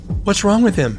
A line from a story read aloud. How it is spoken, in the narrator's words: she asks